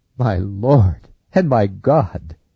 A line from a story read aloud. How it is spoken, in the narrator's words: fell flat on his face, and cried